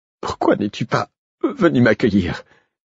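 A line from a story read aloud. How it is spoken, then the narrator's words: Breathless question. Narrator (French): demanda Molly, haletante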